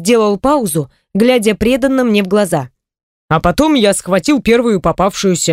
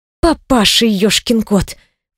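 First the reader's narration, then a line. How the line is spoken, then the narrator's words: Quiet snort. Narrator (Russian): фыркнула я негромко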